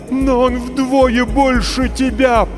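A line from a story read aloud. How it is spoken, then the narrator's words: Terrified moan. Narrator (Russian): простонала мать, почти обезумев от ужаса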